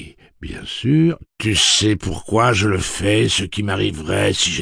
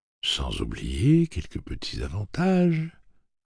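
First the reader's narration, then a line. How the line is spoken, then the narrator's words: Suave voice. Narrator (French): corrigea Andy d'une voix suave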